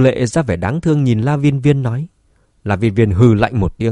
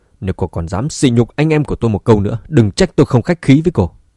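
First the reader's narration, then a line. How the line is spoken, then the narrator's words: Angry. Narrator (Vietnamese): Vương Dũng tức giận nói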